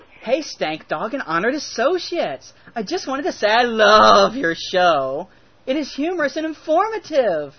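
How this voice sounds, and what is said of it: Put-on Valley girl voice. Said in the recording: “do a chick voice ... I like to do voices ... I'm going to pretend Amy's a Valley girl”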